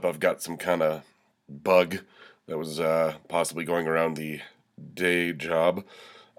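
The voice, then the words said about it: Congested, stuffed-up voice. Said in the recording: “You can probably hear from my voice. I'm a little stuffed up. ... Goddamn head cold”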